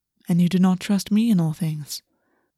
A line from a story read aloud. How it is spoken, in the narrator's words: August said calmly